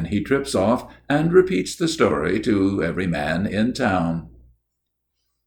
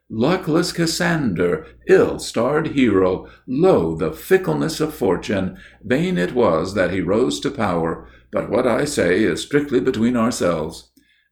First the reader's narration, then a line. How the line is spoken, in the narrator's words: There is a convincing pathos in his voice, exclaims